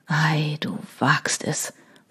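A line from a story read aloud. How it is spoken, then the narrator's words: Whispered. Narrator (German): flüsterte er schließlich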